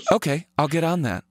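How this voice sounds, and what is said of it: Flat robotic voice. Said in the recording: “that is a great impression of his voice. He is ... a robot. ... a human robot.”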